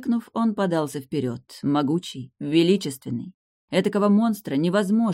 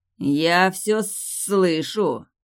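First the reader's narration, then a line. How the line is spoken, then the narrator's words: Growled, somewhat muffled, duke. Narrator (Russian): рыкнул герцог несколько глуховато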